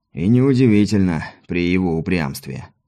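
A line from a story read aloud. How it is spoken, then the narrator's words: Sighing confirmation. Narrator (Russian): вздохнув, подтвердил капитан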